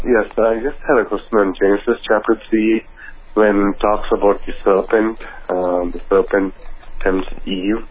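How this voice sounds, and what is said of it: Noticeable accent. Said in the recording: “You have a bit of an accent”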